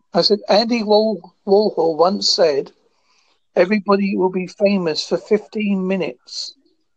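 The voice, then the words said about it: Speaks with a noticeable accent. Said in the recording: “I'm not getting you because of your accent,”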